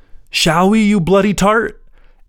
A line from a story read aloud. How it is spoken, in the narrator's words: someone yells